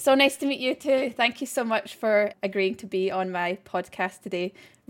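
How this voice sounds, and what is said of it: Scottish accent. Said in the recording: “Where's that accent from? ... Well, I'm Scottish.”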